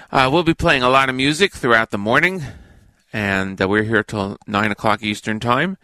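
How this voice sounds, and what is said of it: Slightly hoarse voice. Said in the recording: “Pardon my voice, a little bit hoarse”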